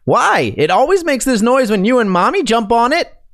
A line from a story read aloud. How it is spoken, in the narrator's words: He, 7 years old at the time, yells back